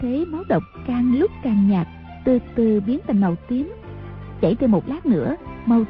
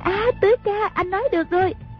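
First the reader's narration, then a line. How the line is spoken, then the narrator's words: Exclaiming loudly. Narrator (Vietnamese): A Bích la lên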